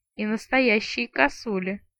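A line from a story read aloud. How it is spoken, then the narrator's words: Gloomy agreement. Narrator (Russian): мрачно поддакнула я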